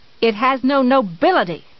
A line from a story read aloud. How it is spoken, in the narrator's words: she cried suddenly